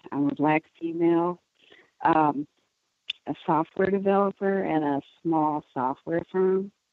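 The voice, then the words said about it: Shaky, nervous voice. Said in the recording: “I'm a little nervous, so sorry if my voice is shaky”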